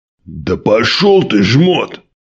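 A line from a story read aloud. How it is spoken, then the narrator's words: Barking big man. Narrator (Russian): рявкнул самый здоровый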